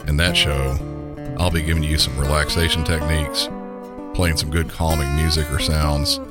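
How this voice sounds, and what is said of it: Southern American accent. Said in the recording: “my normal Southern accent”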